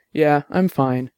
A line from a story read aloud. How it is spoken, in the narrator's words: Dex said